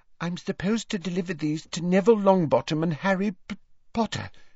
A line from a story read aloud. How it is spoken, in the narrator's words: she faltered, as her eyes met Harry's and she turned scarlet